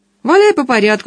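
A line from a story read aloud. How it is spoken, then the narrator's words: Cheerful agreement. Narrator (Russian): согласился полковник весело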